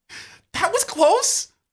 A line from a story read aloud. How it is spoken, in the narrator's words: You gasp